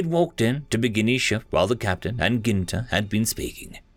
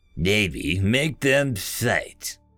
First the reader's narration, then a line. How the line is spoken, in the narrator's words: chuckled the ship's executive officer